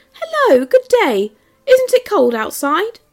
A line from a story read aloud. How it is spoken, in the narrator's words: I shouted